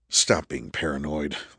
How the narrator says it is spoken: Andrew muttered to himself

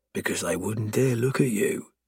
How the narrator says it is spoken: I murmur

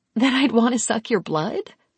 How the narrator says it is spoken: Kira laughed

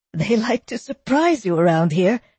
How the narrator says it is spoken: Theodora said, gasping

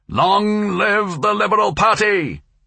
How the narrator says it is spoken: he shouted

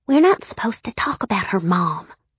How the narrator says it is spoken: she hissed

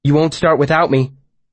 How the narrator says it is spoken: He asked anxiously

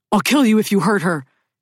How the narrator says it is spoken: Skip is shouting

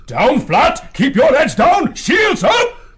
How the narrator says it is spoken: Clud bellowed to the soldiers

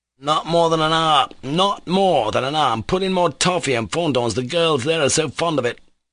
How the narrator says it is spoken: Mitya insisted hotly

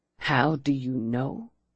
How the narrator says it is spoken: he repeated incredulously, his voice low and vibrating

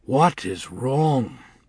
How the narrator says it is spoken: he sighed, and was lost in thought

